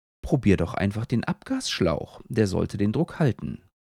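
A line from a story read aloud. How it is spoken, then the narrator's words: Amused, grinning. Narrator (German): Mo grinst hingegen leise in sich hinein, bevor sie sagt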